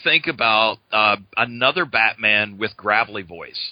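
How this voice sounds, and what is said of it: Usual voice. Nothing is said of it.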